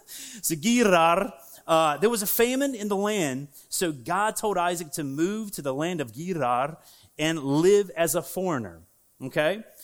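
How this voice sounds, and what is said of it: Southern American accent. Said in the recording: “I got a southern accent, so my southern accent”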